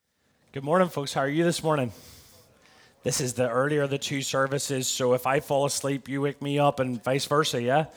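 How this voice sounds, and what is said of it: Faded Northern Irish accent. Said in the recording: “if you don't understand me, I think they can put subtitles up behind me ... I'm from Belfast in Northern Ireland. America's affected me in more ways than one. It's dwindled my accent.”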